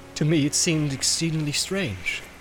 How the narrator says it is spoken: said Boromir

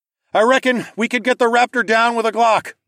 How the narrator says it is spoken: shouted

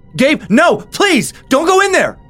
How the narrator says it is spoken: screamed

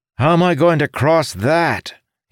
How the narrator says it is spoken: he shouted

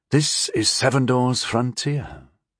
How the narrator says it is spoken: I said quietly

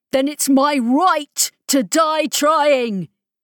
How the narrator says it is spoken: he shouted at her

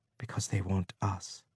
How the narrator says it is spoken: she said softly

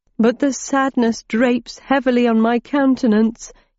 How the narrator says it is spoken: he whimpered

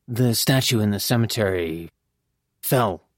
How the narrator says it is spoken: I murmured

